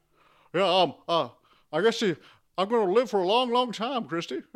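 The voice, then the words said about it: Imitates another person's voice. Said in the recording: “That's a really good impression”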